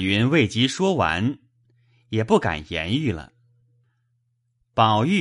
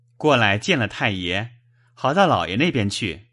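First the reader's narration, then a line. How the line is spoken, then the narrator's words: Ingratiating smile. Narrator (Chinese): 宝玉陪笑道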